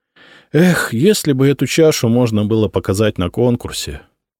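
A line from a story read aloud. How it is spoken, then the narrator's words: Sighing. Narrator (Russian): вздохнул он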